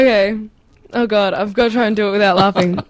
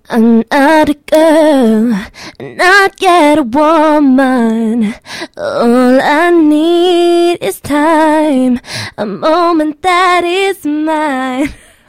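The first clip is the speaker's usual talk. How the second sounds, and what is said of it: Imitates a pop singer's singing voice. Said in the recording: “you do a really mean Britney Spears impersonation ... That's really good.”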